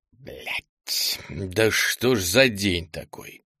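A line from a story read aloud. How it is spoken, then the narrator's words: Hissed. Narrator (Russian): прошипел Артем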